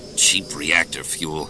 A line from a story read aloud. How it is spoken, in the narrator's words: Han grumbled